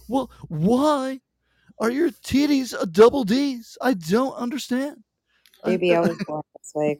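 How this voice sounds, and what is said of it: Imitates another person's voice. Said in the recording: “my Jerry Seinfeld impression ... my impression of Jerry Seinfeld”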